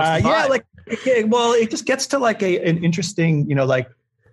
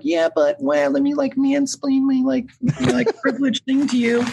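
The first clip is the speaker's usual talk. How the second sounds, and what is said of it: Impression of a Reddit commenter. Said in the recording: “That's exactly what they sound like. That was an amazing impression. Every Reddit commenter sounds exactly like that.”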